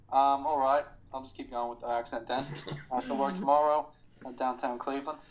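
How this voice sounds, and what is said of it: Put-on Australian accent. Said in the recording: “if you're going to do the Australian accent ... he's doing the accent”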